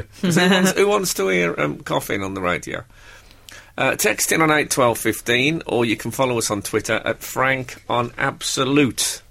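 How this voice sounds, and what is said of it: Slightly hoarse, throaty voice. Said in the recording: “I've got a slight frog, just a slight frog in my throat.”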